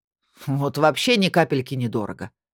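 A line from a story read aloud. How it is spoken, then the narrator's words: Snorting sorcerer. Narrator (Russian): фыркнул колдун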